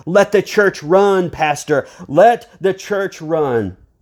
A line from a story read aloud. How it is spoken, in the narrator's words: the people shouted